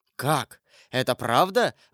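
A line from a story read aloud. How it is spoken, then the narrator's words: Exclaiming. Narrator (Russian): воскликнул Коконас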